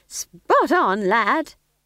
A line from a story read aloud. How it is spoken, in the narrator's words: said Nanny cheerfully